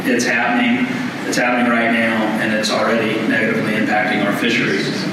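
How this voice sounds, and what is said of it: Southern US accent. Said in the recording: “if y'all haven't picked up from the accent, I'm from the South”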